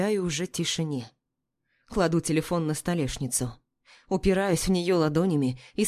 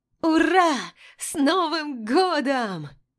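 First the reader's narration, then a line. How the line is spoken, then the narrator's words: Joyful shout. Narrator (Russian): Радостно кричит Дуня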